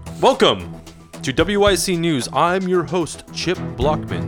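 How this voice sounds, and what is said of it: News anchor voice. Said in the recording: “Just saying regular stuff in a news voice”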